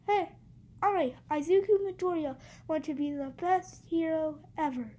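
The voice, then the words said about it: Imitates an anime character's voice. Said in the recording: “here's my deck impression.”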